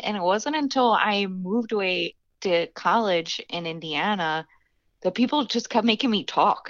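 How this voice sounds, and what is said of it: Philadelphia accent. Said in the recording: “her fun accent ... I'm from Philadelphia, and that's how we say it ... you have such a crazy accent”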